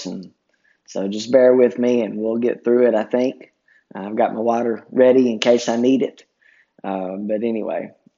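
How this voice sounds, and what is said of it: Hoarse voice. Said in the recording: “my voice sounds a little bit different today, a little bit hoarse”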